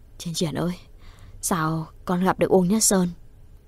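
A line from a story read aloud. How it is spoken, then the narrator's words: Feigned casual question. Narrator (Vietnamese): Bàn tay run run, bà làm như lơ đãng hỏi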